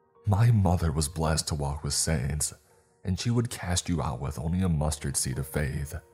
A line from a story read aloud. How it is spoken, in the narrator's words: I snapped